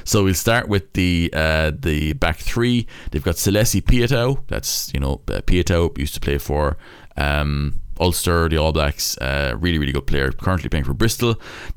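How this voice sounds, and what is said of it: Put-on Cork Irish accent. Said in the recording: “I'm going to be doing this in a Cork accent”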